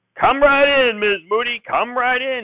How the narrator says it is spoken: shouted

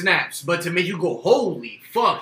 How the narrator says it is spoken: he snapped

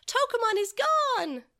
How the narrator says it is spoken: Takaru had cried out

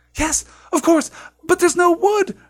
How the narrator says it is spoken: Hermione cried

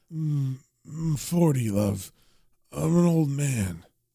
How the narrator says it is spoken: passed out on the bed drunk, and he's kind of muttering to himself saying

